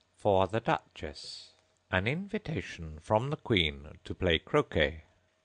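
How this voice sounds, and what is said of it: Solemn, formal reading voice. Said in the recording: “in a solemn voice”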